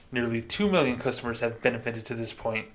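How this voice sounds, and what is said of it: Put-on corporate bank spokesperson voice. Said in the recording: “I'm still going to do my bank voice”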